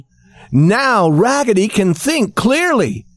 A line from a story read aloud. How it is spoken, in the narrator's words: shouted all the dolls